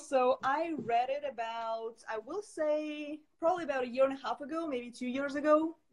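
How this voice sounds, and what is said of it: Russian accent. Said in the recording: “I'm Russian. You may probably tell by the accent.”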